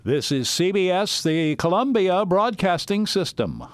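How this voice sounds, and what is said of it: Imitates a radio network announcer. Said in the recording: “did a perfect imitation”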